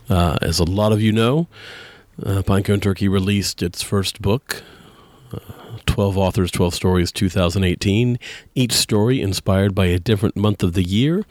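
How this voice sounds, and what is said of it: Deeper, raspier voice than usual. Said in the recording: “my voice is a little deeper and raspier than it is usually, and that is thanks to germs and stress and lack of sleep”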